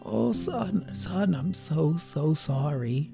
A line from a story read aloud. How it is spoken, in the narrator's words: rasped